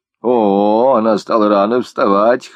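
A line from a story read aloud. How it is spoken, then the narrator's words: Wry snort. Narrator (Russian): хмыкнула Марта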